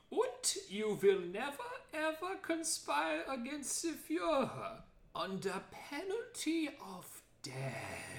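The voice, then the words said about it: Caricatured German Nazi character voice. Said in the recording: “very racist caricature voices ... Do your Nazi voice.”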